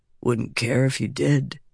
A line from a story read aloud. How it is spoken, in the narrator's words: Vatha said softly